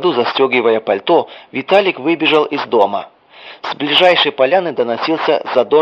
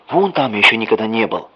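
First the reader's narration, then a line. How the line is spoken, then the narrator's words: Whisper. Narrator (Russian): прошептал он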